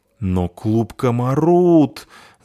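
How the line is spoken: Moaning, fat man. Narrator (Russian): застонал толстяк

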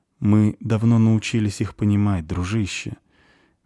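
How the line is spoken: Soft. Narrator (Russian): мягко сказал Кифри

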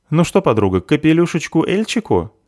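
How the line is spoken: Cheerful offer. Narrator (Russian): весело предлагает заверушка

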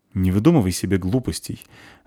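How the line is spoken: Irritated speech. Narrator (Russian): раздраженно говорит полчик

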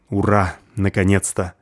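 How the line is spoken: With a sigh. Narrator (Russian): Мастер, вздохнув

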